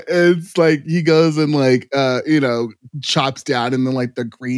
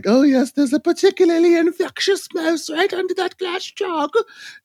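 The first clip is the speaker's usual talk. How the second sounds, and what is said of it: Old grandma character voice. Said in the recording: “wow, that was a great grandma... That was a flawless impression.”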